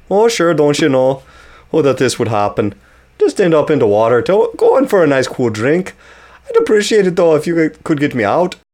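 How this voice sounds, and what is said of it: Attempted Minnesotan accent. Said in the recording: “Nope, that's not a Minnesotan accent.”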